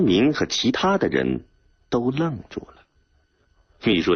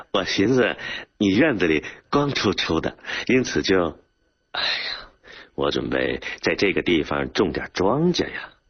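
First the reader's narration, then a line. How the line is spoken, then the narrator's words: Embarrassed, slurred laughing speech. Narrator (Chinese): 门牙不知怎么缺了半颗的张生民咧开嘴，难为情的笑着，吐字不清的说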